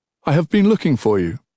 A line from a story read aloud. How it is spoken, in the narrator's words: he said